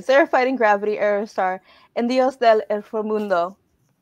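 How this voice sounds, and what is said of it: Put-on accent on Spanish names. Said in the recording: “I did an accent. ... It's my people's words.”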